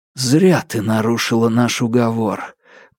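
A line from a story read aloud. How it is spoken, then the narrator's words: Whispered, sickened. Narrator (Russian): прошептал я, почему-то чувствуя себя мерзко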